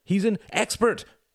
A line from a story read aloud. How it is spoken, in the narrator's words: shouted Tom, willing himself to stop struggling in the bear man's embrace